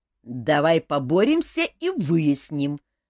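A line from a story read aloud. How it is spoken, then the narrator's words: Roar. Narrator (Russian): взревел Элмар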